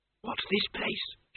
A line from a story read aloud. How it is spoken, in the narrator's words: she whispered